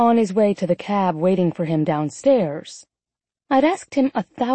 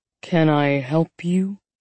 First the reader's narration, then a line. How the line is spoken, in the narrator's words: he asked dryly